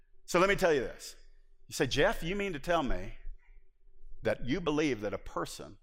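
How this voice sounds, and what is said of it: Usual voice. Nothing is said of it.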